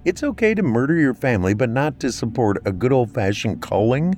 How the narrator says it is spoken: She laughed more

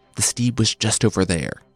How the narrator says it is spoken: From the adjacent stall, the black thief whispered

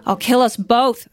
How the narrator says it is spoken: I screamed as we bumped over the rutted field

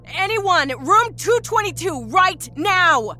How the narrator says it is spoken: She yelled down the soundless hall

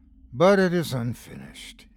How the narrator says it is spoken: breathed

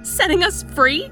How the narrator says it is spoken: I cried

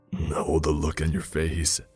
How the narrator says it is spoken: he said between chuckles

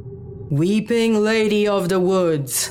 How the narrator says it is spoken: Charles finally bellowed

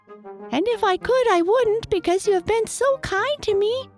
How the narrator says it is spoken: squeaked the little mouse toy

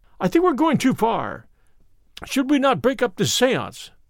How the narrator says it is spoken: I cried

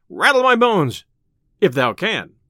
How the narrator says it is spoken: cried merry Robin

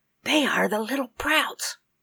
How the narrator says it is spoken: whispered Rose

